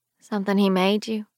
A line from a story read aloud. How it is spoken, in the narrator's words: she says quietly